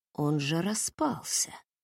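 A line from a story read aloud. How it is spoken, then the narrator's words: Shocked mutter. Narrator (Russian): пробормотал Вилсон, не иначе как от шока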